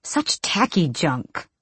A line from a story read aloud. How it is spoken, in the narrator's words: she spat